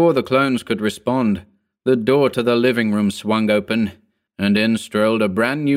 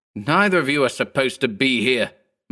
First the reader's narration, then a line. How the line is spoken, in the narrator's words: Mark barked, addressing the pair in a vicious tone, nervously